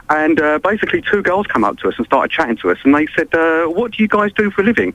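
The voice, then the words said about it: English accent. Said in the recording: “we're English ... they love the English accent over there”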